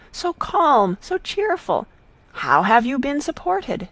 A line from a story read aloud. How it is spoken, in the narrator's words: cried again